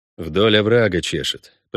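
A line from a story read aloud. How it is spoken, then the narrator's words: Mutter. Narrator (Russian): пробормотал Геральт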